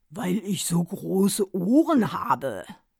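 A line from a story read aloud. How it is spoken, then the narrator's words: Father's deep voice. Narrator (German): Sein Vater sagte dann mit tiefer Stimme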